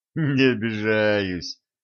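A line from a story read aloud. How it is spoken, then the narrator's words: Laughing. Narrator (Russian): рассмеялся Середин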